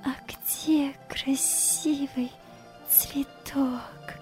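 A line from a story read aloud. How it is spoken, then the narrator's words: Smiling whisper. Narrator (Russian): прошептала, улыбаясь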